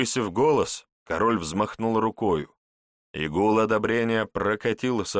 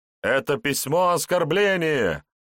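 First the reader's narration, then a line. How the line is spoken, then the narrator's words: Shouted. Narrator (Russian): выкрикнул один из рыцарей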